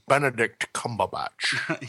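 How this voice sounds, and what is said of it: Put-on proper English accent. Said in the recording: “It can be only pronounced in the proper English accent.”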